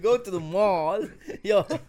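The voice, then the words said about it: Put-on American accent. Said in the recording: “Why did you do American accent?”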